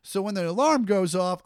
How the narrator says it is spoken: I yell out

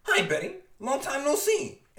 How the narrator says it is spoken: He shouts

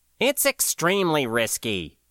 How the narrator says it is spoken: SS1 dismissed firmly

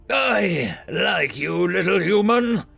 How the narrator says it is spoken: bellowed the commander drunkenly

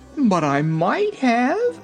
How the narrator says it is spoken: she exclaimed

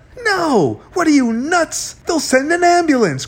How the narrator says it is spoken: cried Z

